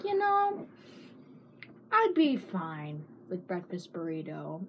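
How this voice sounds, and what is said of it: Imitates another person's voice. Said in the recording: “your impression.”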